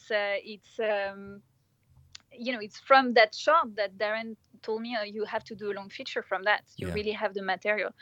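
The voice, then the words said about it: French accent. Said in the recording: “a beautiful French accent, as terrible as mine”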